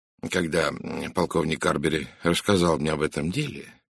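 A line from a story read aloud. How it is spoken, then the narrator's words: Quiet voice. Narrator (Russian): тихим голосом начал он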